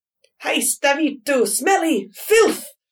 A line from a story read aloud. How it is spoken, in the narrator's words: He roared